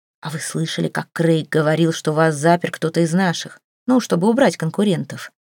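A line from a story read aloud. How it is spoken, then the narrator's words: Whispered. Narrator (Russian): прошептал Джо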